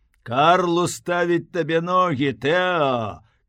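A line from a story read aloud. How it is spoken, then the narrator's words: Shout. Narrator (Belarusian): крыкнуў яму Ленц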